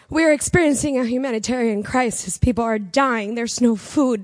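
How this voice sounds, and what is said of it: Emotional, voice close to tears. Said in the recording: “I'm going to get emotional”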